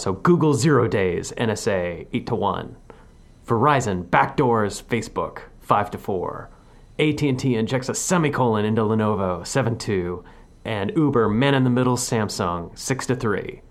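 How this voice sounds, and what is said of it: Sports announcer voice. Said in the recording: “I'm going to put on my best sports announcer voice.”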